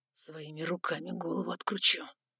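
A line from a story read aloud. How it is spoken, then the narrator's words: Gloomy deep bass. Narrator (Russian): мрачно пробасил особенно широкоплечий из парней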